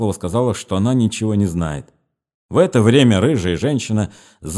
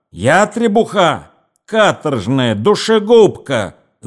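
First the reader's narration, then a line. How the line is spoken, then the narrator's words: Shouted, woman. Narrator (Russian): закричала рыжая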